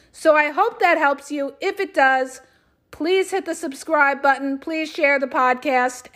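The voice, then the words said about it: Strained, hoarse voice. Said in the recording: “because I haven't stopped all day, you guys, I'm losing my voice.”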